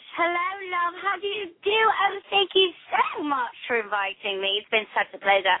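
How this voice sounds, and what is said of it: Put-on British accent. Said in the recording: “Sometimes I use an accent... Today I was British.”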